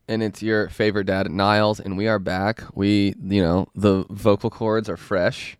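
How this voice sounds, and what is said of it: Congested, stuffy-nosed voice. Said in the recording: “I'm just congested all the time. I just have allergies and my nose is always stuffy”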